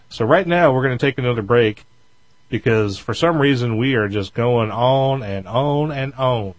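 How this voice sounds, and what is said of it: Southern US accent. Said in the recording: “Hear that southern accent there ... I told you you've been spending too much time in the South.”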